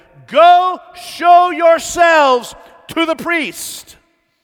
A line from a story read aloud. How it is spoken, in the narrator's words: from more than 100 yards away, Jesus yells back at them